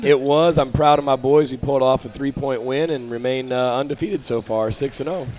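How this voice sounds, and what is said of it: Slightly hoarse voice. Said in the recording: “A little bit hoarse, you might hear.”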